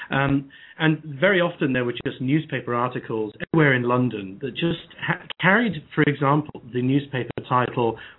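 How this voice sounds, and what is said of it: British accent. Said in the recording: “I'm a Brit, as you can hear from my voice”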